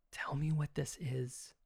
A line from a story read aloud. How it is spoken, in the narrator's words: I whispered